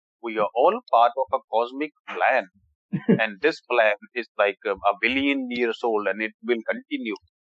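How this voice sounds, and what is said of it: Exaggerated put-on Indian accent. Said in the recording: “in a hardcore Indian accent”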